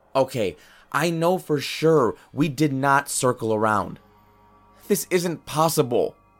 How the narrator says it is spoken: Ben yelled

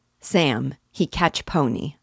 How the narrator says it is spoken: said he

